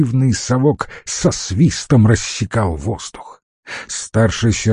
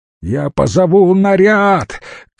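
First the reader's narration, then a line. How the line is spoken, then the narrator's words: Shout from behind. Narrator (Russian): крикнул из-за спины Бабочкин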